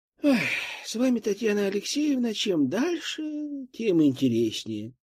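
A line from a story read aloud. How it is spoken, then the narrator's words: Sigh. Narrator (Russian): вздохнула главная медсестра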